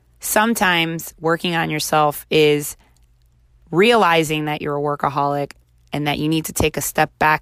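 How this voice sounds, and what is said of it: Slightly raspy, recovering voice. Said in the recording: “my voice is a little raspy because I had the flu and then it turned into laryngitis, and I'm just getting my voice back”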